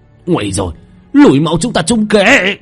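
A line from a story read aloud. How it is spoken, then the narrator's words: Anguished scream. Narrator (Vietnamese): một tiếng hét thảm thiết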